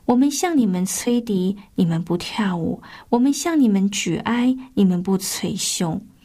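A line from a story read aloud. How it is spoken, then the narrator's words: Lamenting. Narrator (Chinese): 耶稣曾对他所处的冷漠世代发出这样的感叹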